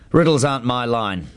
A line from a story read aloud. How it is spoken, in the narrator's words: he said gruffly